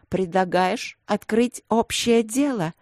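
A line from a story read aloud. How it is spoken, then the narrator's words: Angry hiss. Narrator (Russian): злобно прошипела я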